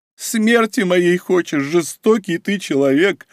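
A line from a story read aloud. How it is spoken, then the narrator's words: Moaning. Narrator (Russian): простонала Мара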